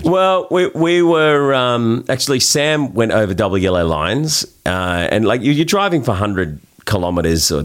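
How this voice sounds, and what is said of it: Australian accent. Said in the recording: “you Australian, I hear the accent.”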